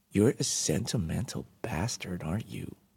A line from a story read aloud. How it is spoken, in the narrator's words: muttered